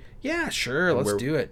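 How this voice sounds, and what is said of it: Sarcastic tone. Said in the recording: “we're being sarcastic now, huh?”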